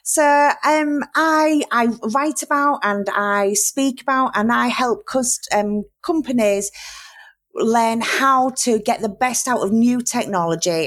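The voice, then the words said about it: Strong Yorkshire English accent. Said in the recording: “in my very Yorkshire accent, which is not that great for podcasts”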